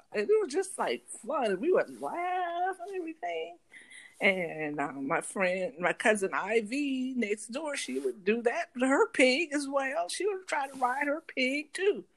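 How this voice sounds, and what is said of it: Slipping into a country accent. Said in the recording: “You notice you getting in this country accent ... more you talk about it.”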